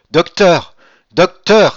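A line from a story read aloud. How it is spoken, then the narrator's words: Exclaimed. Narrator (French): s'écria-t-il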